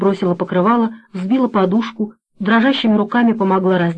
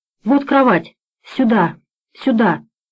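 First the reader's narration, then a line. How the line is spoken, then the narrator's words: Frightened whisper. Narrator (Russian): испуганно шептала Бажена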